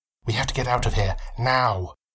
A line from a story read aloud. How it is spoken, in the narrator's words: Jekyll whispered to his friend